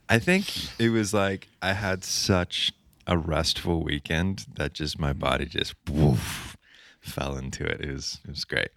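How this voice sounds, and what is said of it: Groggy, slightly deeper voice than usual. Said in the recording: “my voice is slightly deeper than normal”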